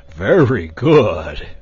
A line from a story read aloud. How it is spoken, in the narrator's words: returned the dragon cheerfully